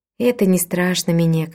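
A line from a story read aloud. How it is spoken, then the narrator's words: Calm. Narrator (Russian): спокойно сказала тетушка Уима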